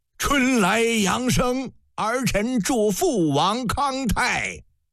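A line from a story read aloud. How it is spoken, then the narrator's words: Loud. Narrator (Chinese): 营柱高声道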